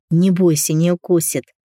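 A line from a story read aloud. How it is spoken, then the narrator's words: Laughing. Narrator (Russian): рассмеялся Антон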